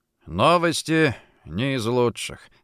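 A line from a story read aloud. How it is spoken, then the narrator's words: Sigh. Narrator (Russian): вздохнул он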